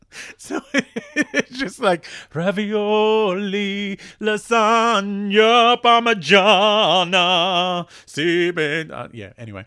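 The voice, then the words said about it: Sung imitation of another person's voice. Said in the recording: “terrible impression of Anthony Calia, where I would sing the prayer in the style of Anthony Calia”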